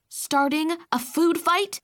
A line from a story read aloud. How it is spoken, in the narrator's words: Mom snapped right away